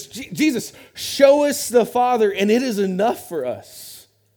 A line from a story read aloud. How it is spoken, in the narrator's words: Philip blurts out to Jesus